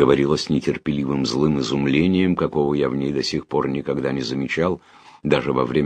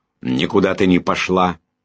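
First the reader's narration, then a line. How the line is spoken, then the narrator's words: Barking. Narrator (Russian): рявкнул сэр Джуфин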